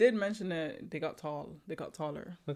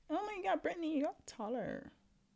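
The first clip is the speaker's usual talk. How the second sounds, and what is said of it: Put-on white girl voice. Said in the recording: “That's your white girl voice?”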